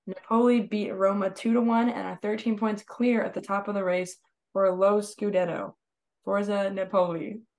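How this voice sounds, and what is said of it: American accent pronouncing Italian words. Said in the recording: “Your American accent when saying stuff in Italian is kind of funny.”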